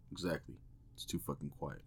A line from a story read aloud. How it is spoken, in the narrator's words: Tom mumbled under his breath